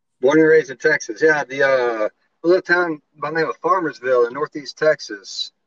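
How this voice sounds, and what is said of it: Texan accent. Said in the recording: “Your accent. ... I'm a Texan.”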